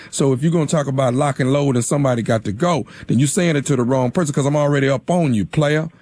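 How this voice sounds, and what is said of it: Country (Southern rural) accent. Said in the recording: “you got a country accent”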